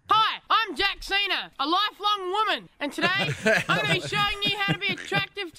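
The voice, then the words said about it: Australian accent. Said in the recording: “He's from Australia, so you're going to have to live through the accent a little bit.”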